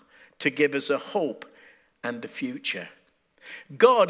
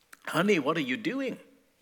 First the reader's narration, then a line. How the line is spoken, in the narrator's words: they asked